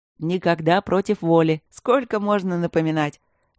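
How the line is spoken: Cheerful snapping retort. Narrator (Russian): Весело огрызнулся воин-дракон

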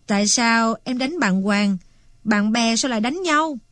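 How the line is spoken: Smiling question. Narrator (Vietnamese): Anh Long mỉm cười hỏi tiếp

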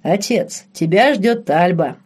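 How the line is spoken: Deep booming voice. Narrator (Russian): пробасил Бернард

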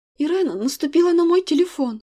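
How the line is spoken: Sobbing. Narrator (Russian): произношу со всхлипом

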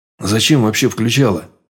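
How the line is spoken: Grumble. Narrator (Russian): проворчал

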